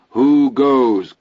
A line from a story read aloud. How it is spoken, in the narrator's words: Chris yelled